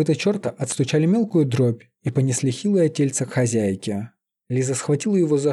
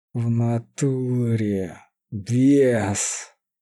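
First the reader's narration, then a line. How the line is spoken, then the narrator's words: Choked out. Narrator (Russian): выдавил, едва не поперхнувшись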